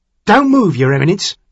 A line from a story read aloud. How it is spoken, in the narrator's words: the assistant coachman said urgently